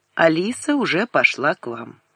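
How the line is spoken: Calm. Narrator (Russian): он спокойно сказал

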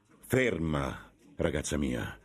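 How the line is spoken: Stern voice. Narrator (Italian): disse con voce severa

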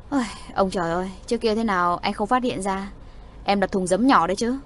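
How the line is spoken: Resigned sigh. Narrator (Vietnamese): Trung soái bất đắc dĩ thở dài

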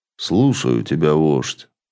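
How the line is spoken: Calm voice. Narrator (Russian): спокойным голосом ответил Элинер

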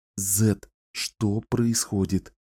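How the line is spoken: Whispered question. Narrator (Russian): Шепотом спросила

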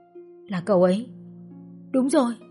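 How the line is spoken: Trembling murmur. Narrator (Vietnamese): Trang run run đôi bờ môi, cô mấp máy nói

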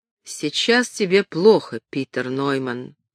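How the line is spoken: Plain. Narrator (Russian): сказал он

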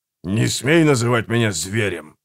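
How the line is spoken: Grumble. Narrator (Russian): проворчал Гегель

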